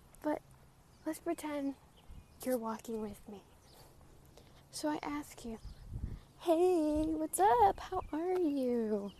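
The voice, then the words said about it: Out of breath while walking. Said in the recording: “I'm already out of breath because I'm talking and walking”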